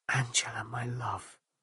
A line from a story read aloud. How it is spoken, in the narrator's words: he whispered